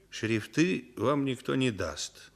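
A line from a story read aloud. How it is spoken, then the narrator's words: Calm confirmation. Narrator (Russian): спокойно подтвердил Денисов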